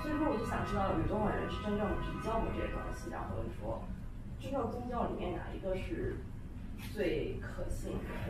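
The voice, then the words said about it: Northeastern Chinese accent. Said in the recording (Chinese): “你肯定是大陆的，你有东北口音，我觉得”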